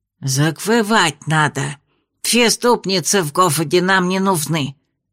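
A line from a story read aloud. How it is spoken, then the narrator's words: Lisping. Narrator (Russian): прошепелявил другой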